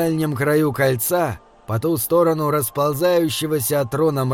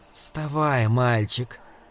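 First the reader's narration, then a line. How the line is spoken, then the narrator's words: Soft hoarse male voice. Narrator (Russian): мягкий и хриплый голос принадлежал мужчине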